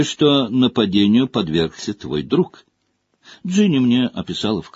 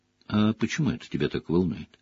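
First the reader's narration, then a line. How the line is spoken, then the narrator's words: Quiet question. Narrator (Russian): тихо спросил Гарри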